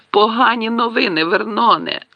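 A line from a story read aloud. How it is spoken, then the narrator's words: Moaning. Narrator (Ukrainian): простогнала вона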